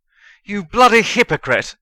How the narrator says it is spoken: Harry shouted

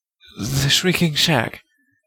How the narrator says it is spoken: he said shakily

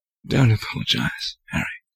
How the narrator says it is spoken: Lupin said quietly

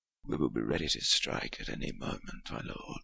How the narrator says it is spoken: whispered the one nearest Harry

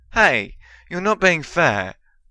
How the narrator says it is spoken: Ron exclaimed

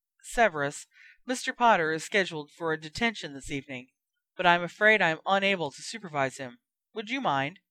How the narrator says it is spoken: asked Lupin smoothly

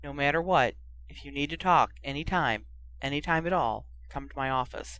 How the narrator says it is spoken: he said softly

